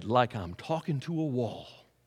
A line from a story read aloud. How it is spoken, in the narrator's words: The old man looked at her sadly and said